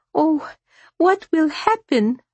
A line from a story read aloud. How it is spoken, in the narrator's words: Maria cried